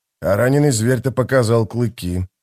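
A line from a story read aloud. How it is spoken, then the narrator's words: Gloomy. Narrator (Russian): мрачно сказал он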